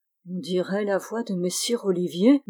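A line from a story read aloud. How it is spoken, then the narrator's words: Murmured. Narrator (French): murmura Berthe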